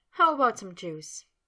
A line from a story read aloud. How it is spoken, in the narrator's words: Sabrina, still chuckling, asked